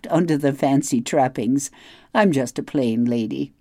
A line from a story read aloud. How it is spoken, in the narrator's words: I laughed